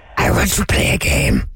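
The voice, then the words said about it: Jigsaw impression from Saw. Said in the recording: “God, I actually really hurt my throat. ... Was that your Jigsaw impression? ... Yeah, that was me as Jigsaw. ... The titular Jigsaw from Saw.”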